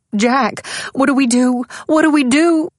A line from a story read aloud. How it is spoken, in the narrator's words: Her voice was hysterical